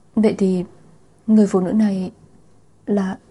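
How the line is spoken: Tearful trembling voice. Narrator (Vietnamese): Lạc Thiên Ngưng nước mắt tuôn rơi, giọng nói run run

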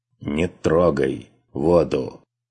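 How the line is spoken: Strained words. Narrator (Russian): выдавил

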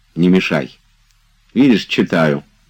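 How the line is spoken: Curt. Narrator (Russian): отрывисто сказал Обломов

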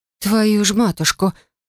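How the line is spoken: Horrified curse through teeth. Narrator (Russian): выругалась сквозь зубы, с ужасом

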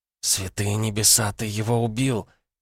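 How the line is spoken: Shocked whisper. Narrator (Russian): потрясенно прошептала Элли

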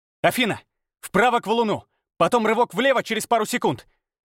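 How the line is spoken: Mental shout, full of will. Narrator (Russian): Мысленно крикнул я, вкладывая в команду всю свою волю

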